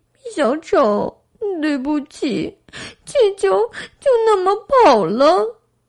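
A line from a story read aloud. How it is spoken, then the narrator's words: Sobbing. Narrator (Chinese): 莎娜抽泣着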